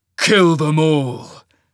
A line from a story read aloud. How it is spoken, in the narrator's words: snarled